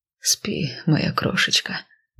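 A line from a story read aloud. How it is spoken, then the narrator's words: Soft laughter. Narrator (Russian): засмеялся тихонько он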